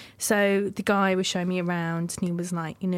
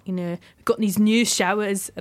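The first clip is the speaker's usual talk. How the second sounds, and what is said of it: Bad imitation Scottish accent. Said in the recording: “That's a really bad Scottish accent.”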